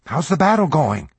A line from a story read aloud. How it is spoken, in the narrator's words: he asked anxiously